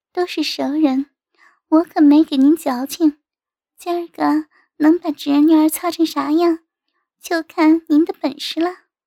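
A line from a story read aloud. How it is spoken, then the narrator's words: Coquettish giggle. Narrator (Chinese): 娇笑道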